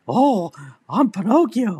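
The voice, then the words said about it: Pinocchio impression, funny voice. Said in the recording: “Pinocchio was funny in that movie, especially his voice ... really funny voice”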